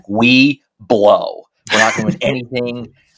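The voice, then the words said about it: Imitates another person's voice. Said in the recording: “my main impression of Gino Auriemma is ... That's my entire impression of Gino Auriemma.”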